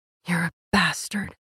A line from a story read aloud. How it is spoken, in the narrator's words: whispered